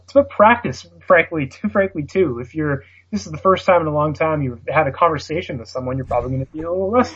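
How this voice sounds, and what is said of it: Canadian accent. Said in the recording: “my Canadian accent ... making fun of a Canadian accent”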